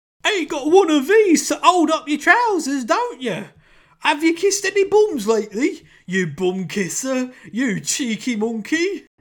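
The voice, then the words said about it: Terrible put-on British accent. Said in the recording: “does a terrible British accent ... Oh, that accent, man.”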